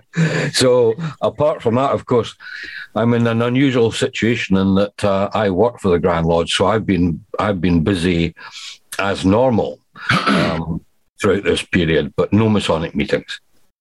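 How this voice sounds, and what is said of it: Noticeable foreign accent. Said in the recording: “It's the accent. Okay. It's the accent”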